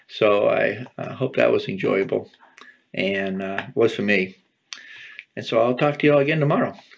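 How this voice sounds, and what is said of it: Strained, worn-out hoarse voice. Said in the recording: “my voice is shot, but not too bad”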